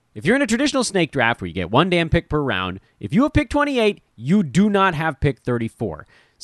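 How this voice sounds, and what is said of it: Yelling, fired-up delivery. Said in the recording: “Why am I yelling at all of you? Why am I getting so fired up”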